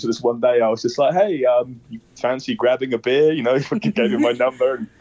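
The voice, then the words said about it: Non-American accent. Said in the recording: “your accent is like a good conversational starter”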